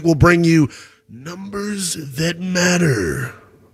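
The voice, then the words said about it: Big announcer-style voice. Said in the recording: “That was my big voice guy impersonation.”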